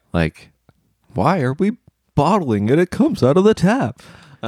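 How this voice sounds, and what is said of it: Jerry Seinfeld impression. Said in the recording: “Okay, Jerry. ... My only comedian impression. ... Jerry Seinfeld”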